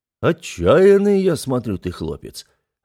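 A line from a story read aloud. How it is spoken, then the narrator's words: Approving booming voice. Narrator (Russian): одобрительно прогудел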